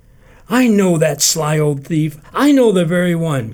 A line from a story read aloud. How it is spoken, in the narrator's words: cried Ruth, inspired by afterthought